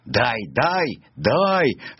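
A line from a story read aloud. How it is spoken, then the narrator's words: Raven's cry. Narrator (Russian): закричал ворон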